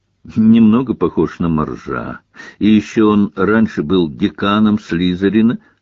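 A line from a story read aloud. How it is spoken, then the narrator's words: Plain. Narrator (Russian): сказал Гарри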